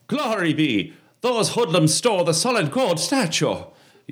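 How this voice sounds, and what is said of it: Put-on Irish accent. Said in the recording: “do the Irish accent”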